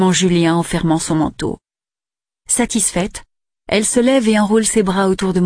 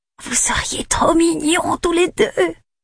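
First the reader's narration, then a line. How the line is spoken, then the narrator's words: Whispered. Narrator (French): chuchote-t-elle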